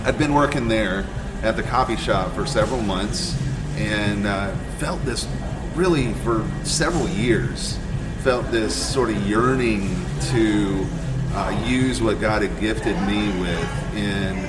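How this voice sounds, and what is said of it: Polished radio announcer voice. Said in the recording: “I got the radio voice. ... You have, like, the best radio voice ... it sounded like I was listening to the radio on my phone”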